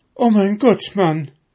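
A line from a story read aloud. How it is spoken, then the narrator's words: Wife screaming. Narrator (German): schrie dem Svenegel seine Frau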